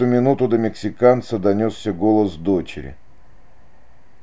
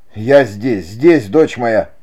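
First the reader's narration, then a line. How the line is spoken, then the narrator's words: Shouted reply. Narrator (Russian): крикнул в ответ мексиканец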